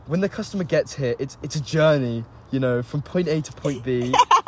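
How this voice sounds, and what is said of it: Imitates another person's accent. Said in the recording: “I'm just gonna do my accent.”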